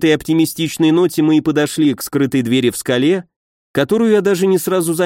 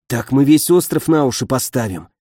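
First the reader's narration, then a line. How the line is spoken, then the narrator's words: Whispered grumble. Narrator (Russian): шепотом проворчал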